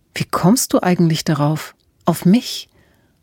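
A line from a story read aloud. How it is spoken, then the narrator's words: Whisper. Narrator (German): flüsterte sie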